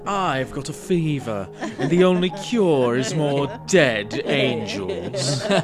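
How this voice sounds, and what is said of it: Imitates a video game character's voice. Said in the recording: “my Bayonetta impression”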